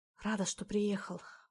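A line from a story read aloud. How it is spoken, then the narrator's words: Whisper against lips. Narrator (Russian): прошептала Лена мне в губы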